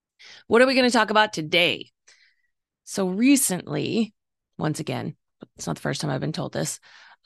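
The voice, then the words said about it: Rough, strained voice. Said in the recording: “As you can probably hear, my voice is just ridiculous today. It's allergies. It sounds horrible.”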